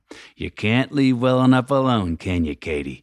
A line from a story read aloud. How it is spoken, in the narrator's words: my dad grumbled through gritted teeth